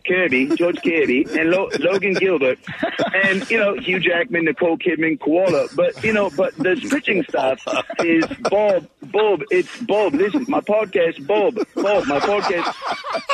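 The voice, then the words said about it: Good Australian-accented impression of Ryan. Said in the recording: “doing his impression of Ryan ... That's pretty good, man. It was pretty spot on. ... just throwing out Australia”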